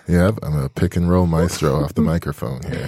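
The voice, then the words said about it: Smooth radio voice. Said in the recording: “You do have a smooth radio voice.”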